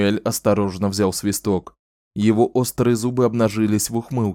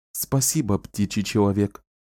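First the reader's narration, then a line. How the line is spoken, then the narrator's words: Plain. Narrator (Russian): сказала Шота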